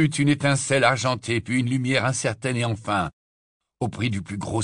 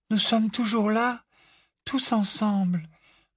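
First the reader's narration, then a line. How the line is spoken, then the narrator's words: Murmured. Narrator (French): murmura-t-elle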